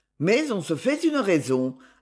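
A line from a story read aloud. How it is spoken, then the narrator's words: Firm tone. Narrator (French): ajouta-t-il d'un ton ferme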